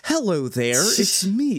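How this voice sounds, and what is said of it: Put-on British accent. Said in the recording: “doing a British accent, and it's just his voice ... what if I do my British accent”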